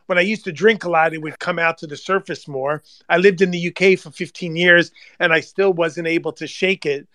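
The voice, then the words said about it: Long Island accent. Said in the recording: “my kids to this day continue to mock me because of my Long Island accent.”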